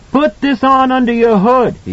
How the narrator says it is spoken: he shouted

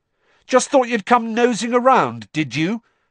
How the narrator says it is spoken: Harry shouted

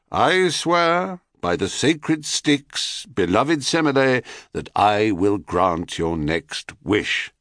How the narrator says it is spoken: with mock solemnity, he intoned

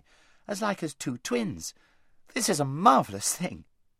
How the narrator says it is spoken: exclaimed Queen Lucy

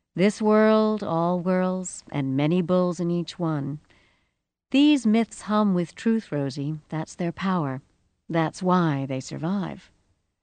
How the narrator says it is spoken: that strange voice, the one which was not quite the voice of practical sensible, said calmly

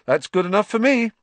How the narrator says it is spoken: said Ron, happily

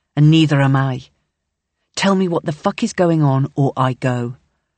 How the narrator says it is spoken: says tightly

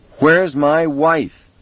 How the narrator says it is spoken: Vic shouted into the phone

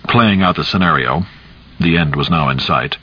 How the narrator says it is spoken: Cap said calmly

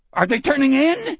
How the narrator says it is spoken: Sonny almost screamed

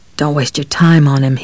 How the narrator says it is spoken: he mumbled

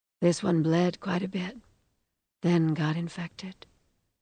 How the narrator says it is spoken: she said in her sweetly husky voice

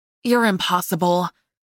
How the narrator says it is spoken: I sighed

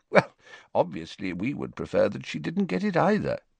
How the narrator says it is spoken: said Dumbledore calmly

